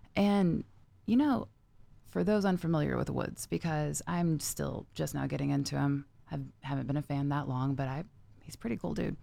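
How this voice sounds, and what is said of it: Slightly rough, hoarse voice. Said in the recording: “My voice is still a little rough from screaming my little heart out last night.”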